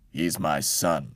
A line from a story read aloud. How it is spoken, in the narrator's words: Uncle said sternly